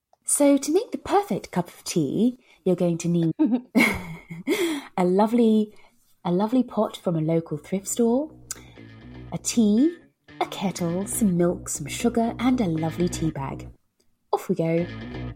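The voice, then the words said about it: Posh English accent. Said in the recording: “I also use my my favourite posh accent to do the voiceover.”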